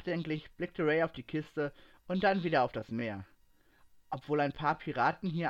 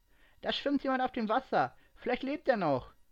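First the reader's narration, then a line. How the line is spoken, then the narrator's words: Hurried call. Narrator (German): rief sie eilig ihren Freunden zu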